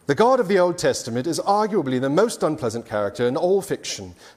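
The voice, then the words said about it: Put-on British accent. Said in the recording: “I'm going to read this with a lovely British accent”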